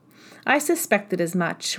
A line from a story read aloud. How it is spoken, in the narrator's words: replied Elizabeth